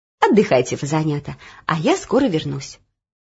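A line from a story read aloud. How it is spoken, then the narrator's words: Gentle, affectionate. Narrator (Russian): Кухарка ласково сказала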